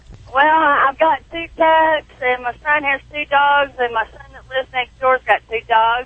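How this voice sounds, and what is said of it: Southern American accent. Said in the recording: “I love the southern accent.”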